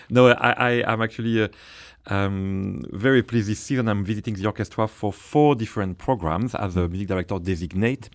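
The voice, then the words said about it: French accent. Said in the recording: “with a French accent”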